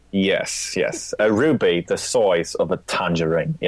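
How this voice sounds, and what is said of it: Poor impression of another person's voice. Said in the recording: “my Michael Caine impression. It's not good.”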